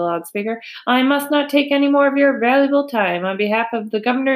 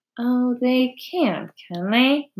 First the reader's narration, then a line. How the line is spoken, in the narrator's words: murmured Charlotte to herself